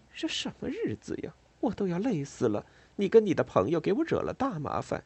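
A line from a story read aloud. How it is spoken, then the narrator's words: Displeased muttering. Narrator (Chinese): 莉拉 很不高兴的嘟囔着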